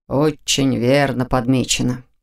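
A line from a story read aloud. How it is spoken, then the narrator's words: Mumble. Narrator (Russian): пробормотал Нев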